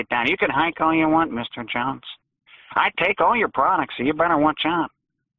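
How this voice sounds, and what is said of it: Cartoonish character voice. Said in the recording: “you sound like a Looney Tunes character.”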